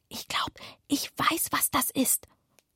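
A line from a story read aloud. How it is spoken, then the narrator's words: Whispered. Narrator (German): flüsterte Anatol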